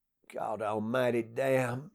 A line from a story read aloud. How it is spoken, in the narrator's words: he muttered